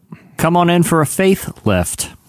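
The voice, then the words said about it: Speaks with a lisp. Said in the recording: “Sounds like you have a lisp. Faith lift.”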